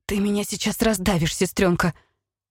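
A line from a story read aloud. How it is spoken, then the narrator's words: Hoarse wheeze. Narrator (Russian): просипела я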